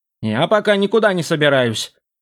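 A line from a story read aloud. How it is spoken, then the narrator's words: Grumbling skull. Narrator (Russian): проворчал череп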